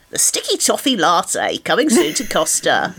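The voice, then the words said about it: Impression of a colleague's advert voice. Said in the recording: “It's quite a good impression, actually.”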